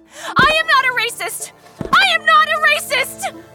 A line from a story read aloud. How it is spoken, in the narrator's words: start screaming